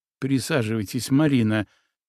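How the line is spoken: Soft, gentle. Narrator (Russian): мягко сказал Егор

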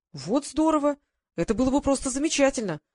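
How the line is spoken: Exclaiming. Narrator (Russian): воскликнул молодой редактор

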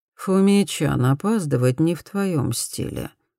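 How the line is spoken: Lifeless flat voice. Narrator (Russian): проговорила безжизненным голосом

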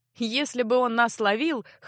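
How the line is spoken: Chuckling. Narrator (Russian): хохотнул маг

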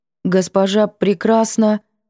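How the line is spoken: Wooden voice. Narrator (Russian): Деревянным голосом

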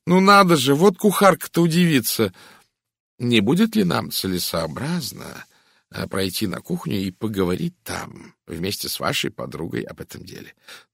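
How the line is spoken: Uncertain. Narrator (Russian): неуверенно произнесла горничная

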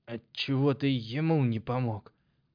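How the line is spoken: Hoarse wheeze after spitting water. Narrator (Russian): прохрипел гвоздь после того, как сплюнул остатки воды

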